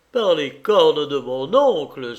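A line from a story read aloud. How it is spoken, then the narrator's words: Feigned angry exclamation. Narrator (French): s'écria Griffard, qui faisait semblant de se mettre en colère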